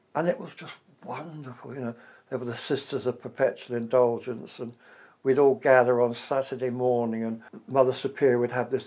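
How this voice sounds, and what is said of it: English accent. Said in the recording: “he liked my accent. An English accent is very hot money in America.”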